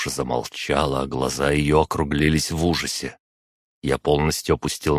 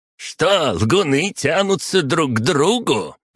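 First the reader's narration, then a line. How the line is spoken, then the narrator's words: Short man's loud exclamation. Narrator (Russian): громко воскликнул коротышка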